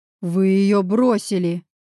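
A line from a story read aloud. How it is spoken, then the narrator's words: Roaring. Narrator (Russian): взревел я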